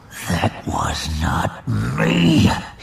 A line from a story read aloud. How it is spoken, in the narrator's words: he growled